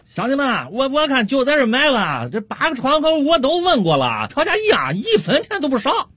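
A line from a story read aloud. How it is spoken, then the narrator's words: Loud call. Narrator (Chinese): 王老汉 冲着他几个老乡大声喊道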